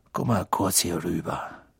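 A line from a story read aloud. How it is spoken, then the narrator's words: Quiet. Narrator (German): Weasley leise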